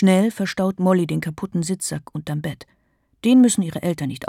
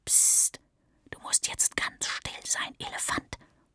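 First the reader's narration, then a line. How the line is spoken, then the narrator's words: Whisper. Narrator (German): flüstert sie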